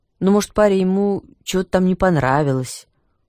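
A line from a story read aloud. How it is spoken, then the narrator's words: Weary reply. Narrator (Russian): устало отвечал староста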